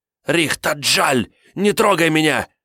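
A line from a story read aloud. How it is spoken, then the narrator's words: Hissing. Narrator (Russian): зашипела клериканка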